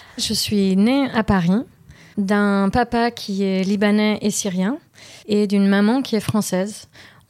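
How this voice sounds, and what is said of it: Slight foreign accent in French. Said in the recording (French): “ce petit accent”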